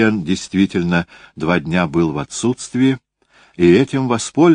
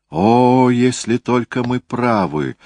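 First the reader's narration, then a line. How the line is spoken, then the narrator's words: Exclamation. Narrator (Russian): воскликнул Контансон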